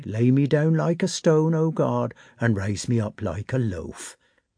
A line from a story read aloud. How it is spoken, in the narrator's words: he muttered